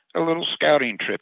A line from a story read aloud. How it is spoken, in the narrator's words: he sighed, it seemed his rage dissipated in that little breath